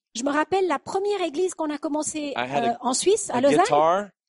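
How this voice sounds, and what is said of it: French spoken with Texan accent. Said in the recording (French): “Avec mon accent texan ... Mais avec mon accent, je disais soufflé.”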